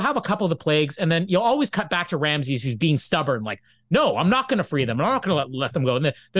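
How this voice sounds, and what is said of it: Usual voice. Nothing is said of it.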